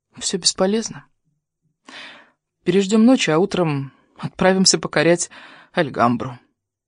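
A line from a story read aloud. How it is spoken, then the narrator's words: Quiet. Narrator (Russian): вконец отчаялась растопить лед его души ... тихо сказала своему спутнику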